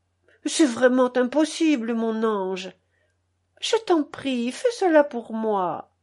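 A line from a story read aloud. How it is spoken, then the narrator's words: Coaxing insistence. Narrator (French): insistait-elle d'une voix caressante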